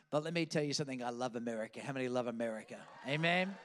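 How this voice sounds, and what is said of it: Australian accent. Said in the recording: “taken in a spaceship to some foreign place called Australia, where I picked up this funny accent.”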